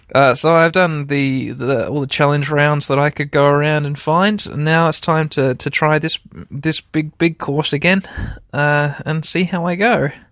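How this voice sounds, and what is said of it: Voice of someone freezing cold. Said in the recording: “You might be able to hear in my voice, listeners, that I am absolutely freezing.”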